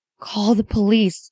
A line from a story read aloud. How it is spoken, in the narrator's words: she mumbled, barely coherent